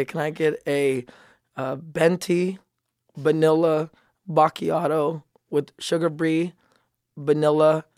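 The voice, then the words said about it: Put-on Filipino accent. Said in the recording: “You're just Filipino right now. ... I just went Asian. My Filipino accent is about as good as my selection in foods.”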